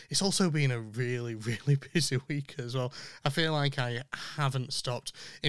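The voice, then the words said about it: Slightly rough, hoarse voice. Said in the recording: “I'm still a little bit short of breath and my voice is still a little bit rougher than it usually is”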